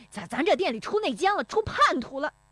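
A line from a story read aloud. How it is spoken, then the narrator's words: Exasperated shouting. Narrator (Chinese): 石有福气急败坏的嚷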